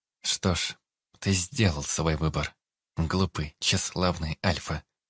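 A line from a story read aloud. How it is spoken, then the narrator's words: Calm young woman. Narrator (Russian): спокойно сказала девушка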